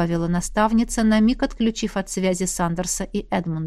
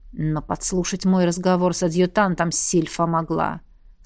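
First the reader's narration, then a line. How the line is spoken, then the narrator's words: Through gritted teeth. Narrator (Russian): сквозь зубы процедил Сандерс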